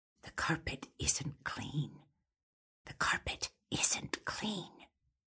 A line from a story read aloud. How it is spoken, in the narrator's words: the echo of a faint whisper